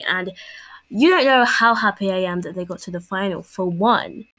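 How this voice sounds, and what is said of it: English accent. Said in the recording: “I myself am English. You can probably tell from my accent”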